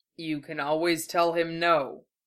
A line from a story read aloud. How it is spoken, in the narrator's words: Kane said, his voice rumbling pleasantly